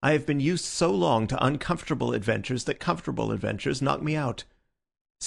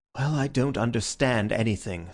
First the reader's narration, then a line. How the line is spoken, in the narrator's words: said Syme, sighing